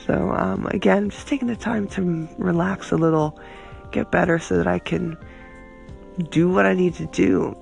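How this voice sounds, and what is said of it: Raspy, sick-sounding voice. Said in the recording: “You can still hear it, though. I am a little sick. You know, I still have my cough and my raspy, sexy voice.”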